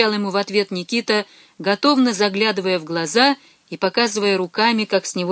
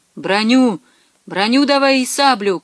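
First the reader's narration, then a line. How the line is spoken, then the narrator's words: Shouting, broken Russian. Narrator (Russian): кричал литвин, коверкая русские слова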